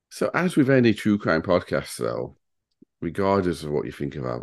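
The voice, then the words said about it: Northern English accent. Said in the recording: “it's nice to hear a Northern accent on a podcast ... it was for the pair of us”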